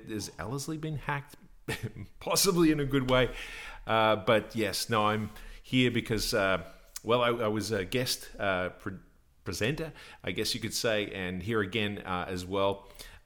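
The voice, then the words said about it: Australian accent. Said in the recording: “strange Aussie accent”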